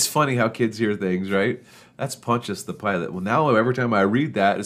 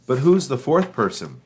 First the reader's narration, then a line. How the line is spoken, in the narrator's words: Kyle exclaimed